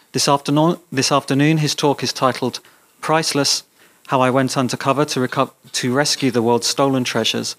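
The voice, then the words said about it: English accent. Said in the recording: “someone with an English accent says it”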